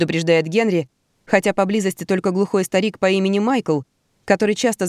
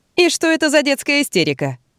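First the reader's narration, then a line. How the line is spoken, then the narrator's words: Cheerful curious question. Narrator (Russian): весело любопытствует Робби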